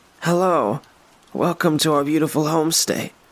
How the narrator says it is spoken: she said

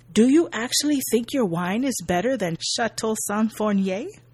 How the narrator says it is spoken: Jacques asks

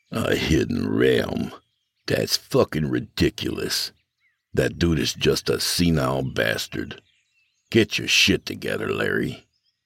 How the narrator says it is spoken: grumbled to himself

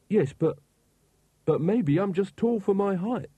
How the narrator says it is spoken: said Carrot desperately

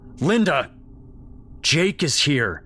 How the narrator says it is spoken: his dad bellowed

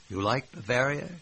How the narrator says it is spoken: she asked

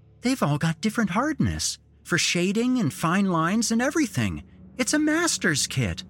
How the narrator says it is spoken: exclaiming

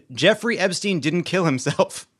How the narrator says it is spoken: the tuna melt screamed

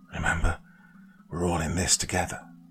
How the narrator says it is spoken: Desmond whispering between clenched teeth

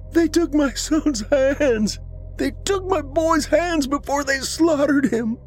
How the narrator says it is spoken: More mortified wails came from the depths beyond the trees

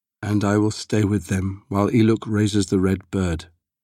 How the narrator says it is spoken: Temujin replied, his voice flat and cold

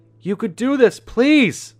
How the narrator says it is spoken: I yell

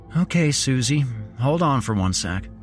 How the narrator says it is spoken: he said calmly

